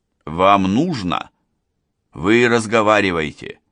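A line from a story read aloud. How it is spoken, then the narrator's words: Rude reply. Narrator (Russian): грубо ответил тот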